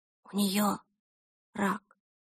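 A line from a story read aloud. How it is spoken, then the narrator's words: Whisper. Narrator (Russian): прошептала Эльса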